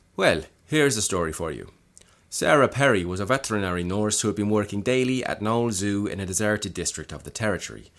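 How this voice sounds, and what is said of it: Attempted North Dublin Irish accent. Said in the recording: “I'm going to do this to the best of my ability with what I've practiced in the North Dublin accent ... I'm not quite there yet”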